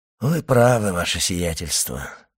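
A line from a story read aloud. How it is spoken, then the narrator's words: Sighing. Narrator (Russian): вздохнул Бертуччо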